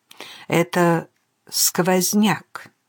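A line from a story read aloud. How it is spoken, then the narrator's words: Uncertain. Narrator (Russian): неуверенно проговорил сторож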